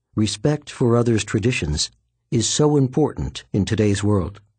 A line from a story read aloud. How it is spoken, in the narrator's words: He paused, then added quietly